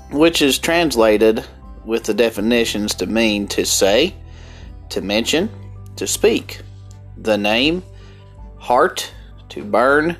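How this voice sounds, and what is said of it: Strong rural American country accent. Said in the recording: “my horrible, horrible country accent”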